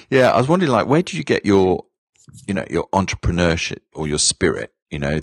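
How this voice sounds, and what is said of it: British accent. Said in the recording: “we're both born in the UK. ... I haven't lost my accent though yet.”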